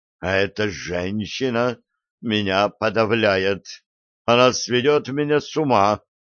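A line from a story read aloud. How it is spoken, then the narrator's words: Breathed out. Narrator (Russian): выдохнул Крис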